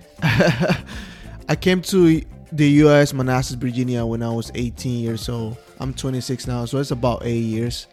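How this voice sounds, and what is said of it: Guatemalan accent. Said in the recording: “I'm from Guatemala City. That is what the accent is from”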